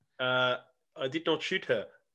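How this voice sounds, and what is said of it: Attempted South African accent. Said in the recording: “Can you do South African accent?”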